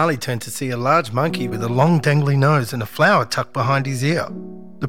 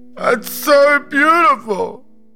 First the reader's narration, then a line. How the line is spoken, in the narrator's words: A voice called out